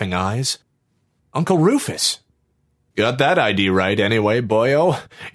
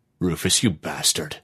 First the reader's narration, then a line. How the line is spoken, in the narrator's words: the angel grumbled